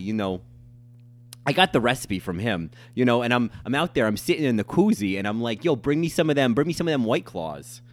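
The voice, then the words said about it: Chicago-style character accent. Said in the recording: “the only accent I can do ... I do this character of Lou Malnati because we went to Chicago”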